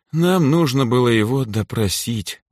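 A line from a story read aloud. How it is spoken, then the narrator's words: Tired statement. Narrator (Russian): устало потерев переносицу, заявила Лирейн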